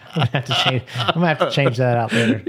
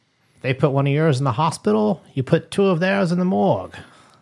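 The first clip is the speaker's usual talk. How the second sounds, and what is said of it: Weak Sean Connery impression. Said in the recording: “Was that your Irish accent? ... That was my Sean Connery accent. It wasn't very good.”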